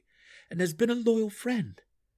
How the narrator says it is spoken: Drizzt retorted sharply

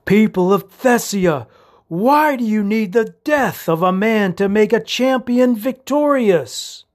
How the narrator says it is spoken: he shouted

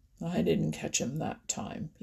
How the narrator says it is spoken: he growled

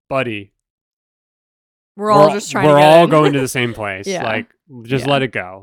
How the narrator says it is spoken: somebody probably roughly our age is just like

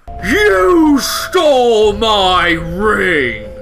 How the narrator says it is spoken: Jenna growls

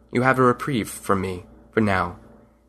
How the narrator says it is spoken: He stared coldly over his shoulder at the dogmen and said to them

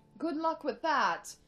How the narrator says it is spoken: Cheryl scoffed

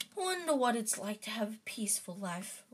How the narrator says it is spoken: Ron sighed

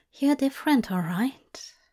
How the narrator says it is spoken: he whispered

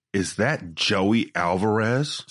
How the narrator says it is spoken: Smith said

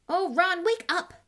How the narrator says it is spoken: snapped Hermione

